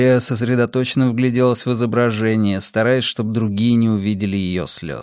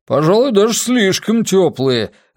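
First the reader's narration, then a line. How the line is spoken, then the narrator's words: Shout from the corner. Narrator (Russian): выкрикнул из угла лысеющий продюсер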